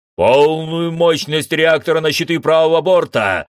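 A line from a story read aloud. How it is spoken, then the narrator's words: Barked command. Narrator (Russian): рявкнул Тамс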